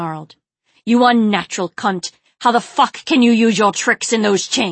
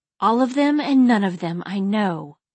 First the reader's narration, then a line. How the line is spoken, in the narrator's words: she muttered